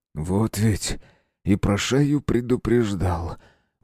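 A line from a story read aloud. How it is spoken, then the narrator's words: Mumbling. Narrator (Russian): пробормотал Руднев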